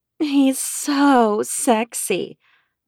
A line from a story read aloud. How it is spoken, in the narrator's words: Moonbeam purred